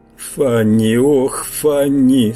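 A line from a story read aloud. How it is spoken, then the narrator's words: Moaning. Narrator (Russian): стонал я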